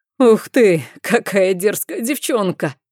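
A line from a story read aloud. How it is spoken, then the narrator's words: Loud laugh. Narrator (Russian): громко хохотнул Люсьен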